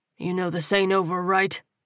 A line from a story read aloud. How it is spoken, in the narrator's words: Terrell growled